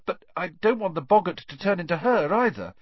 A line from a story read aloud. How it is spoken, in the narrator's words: said nervously